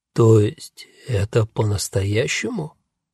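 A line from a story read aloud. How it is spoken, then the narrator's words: Hoarse whisper, young man. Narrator (Russian): хрипло прошептал парень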